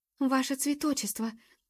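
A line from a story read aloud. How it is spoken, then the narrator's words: Breathless exclamation. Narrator (Russian): выдохнула и Джуб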